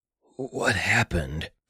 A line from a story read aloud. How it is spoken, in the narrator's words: Schalt choked